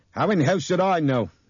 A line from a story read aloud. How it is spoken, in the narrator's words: Nick shouted at him suddenly